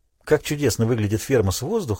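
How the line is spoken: Plain. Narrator (Russian): сказала она

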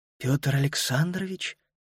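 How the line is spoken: Whispering. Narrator (Russian): прошептала она

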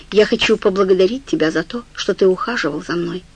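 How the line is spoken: Calm. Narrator (Russian): сказала она спокойно

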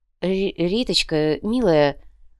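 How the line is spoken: Confused mumble. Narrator (Russian): растерянно промямлил конец

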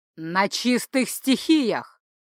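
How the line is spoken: Booming over din. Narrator (Russian): Перекрывая грохот, прогремел голос начальника магического сыска

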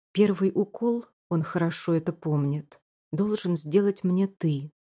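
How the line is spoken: Plain. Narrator (Russian): говорит она

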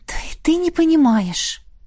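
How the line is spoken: Sighing. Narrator (Russian): вздохнула

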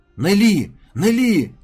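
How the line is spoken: Boys shouting. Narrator (Russian): кричали мальчишки

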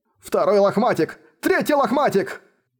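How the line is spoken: Excited shout. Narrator (Russian): Восторженно закричал Учень

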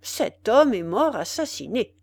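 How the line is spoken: Small man, cold. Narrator (French): reprit froidement le petit homme

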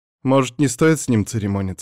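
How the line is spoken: Plain. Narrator (Russian): спросила девушка

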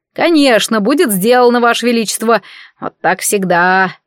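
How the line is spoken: Grumbling. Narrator (Russian): проворчал он

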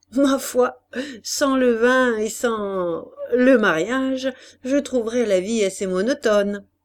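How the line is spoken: Laughing. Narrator (French): Gontran reprit en riant

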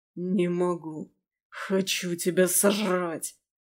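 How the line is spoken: Growling. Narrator (Russian): Прорычал он

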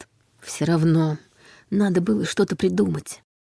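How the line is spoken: Muttered. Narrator (Russian): пробормотал Дементьев

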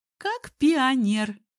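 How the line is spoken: Cheerful exclamation, mischievous giggle. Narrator (Russian): бодро воскликнула Алсу, озорно хихикнула

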